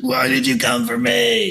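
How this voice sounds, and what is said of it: Batman impersonation voice. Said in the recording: “Please do another Batman impersonation. That was funny.”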